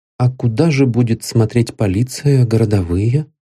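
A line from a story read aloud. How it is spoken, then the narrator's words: Timid question. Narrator (Russian): робко осведомился я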